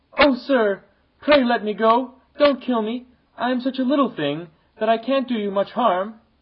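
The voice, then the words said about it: Weak, whimpering little voice. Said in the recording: “The flea, terrified, whimpered in a weak little voice”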